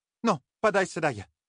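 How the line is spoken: Unyielding exclamation. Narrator (French): s'écria Morgaz, inflexible

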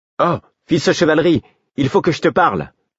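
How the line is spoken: Shouted. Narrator (French): cria-t-elle

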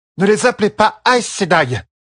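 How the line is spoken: Exclamation. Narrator (French): s'écria Elaine

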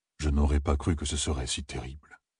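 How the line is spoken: Old man mumbling. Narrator (French): marmonna l'ancien

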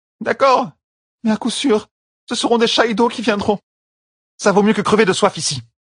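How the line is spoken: Harsher than intended. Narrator (French): répliqua Fail d'un ton plus dur qu'elle l'aurait voulu

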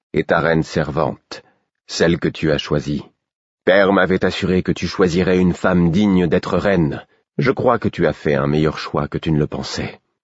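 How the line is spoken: Answered in measured tone. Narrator (French): répondit Vérité d'un ton mesuré

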